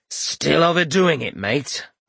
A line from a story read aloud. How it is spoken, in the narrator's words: Rorik growled over the rain of grit